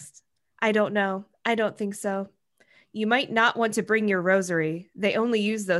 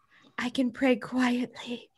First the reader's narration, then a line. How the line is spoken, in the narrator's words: she whispered